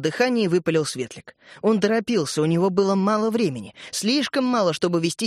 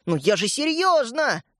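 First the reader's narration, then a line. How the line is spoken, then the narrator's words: Yelling. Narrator (Russian): завопил Светлик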